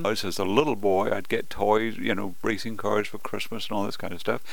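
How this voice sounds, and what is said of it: Non-local, non-Indiana accent. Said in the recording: “by accent, people know that you aren't a native Hoosier”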